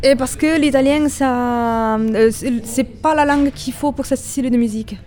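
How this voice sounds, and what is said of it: Italian accent speaking French. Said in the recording (French): “à ton accent, j'imagine que tu as d'autres langues à ton actif... je suis italienne”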